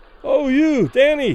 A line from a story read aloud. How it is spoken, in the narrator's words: Those further away, unable to suppress their admiration, cried loudly